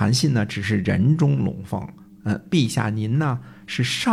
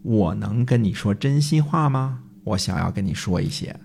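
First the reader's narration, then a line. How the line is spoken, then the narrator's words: Sighing. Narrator (Chinese): 仰天而叹说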